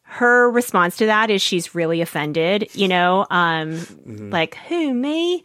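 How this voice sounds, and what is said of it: Poor put-on Southern belle accent. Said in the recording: “Do you like my Southern accent ... It was a Southern belle. ... It almost sounded Australian to me. ... Notoriously terrible at accents. Like, really bad.”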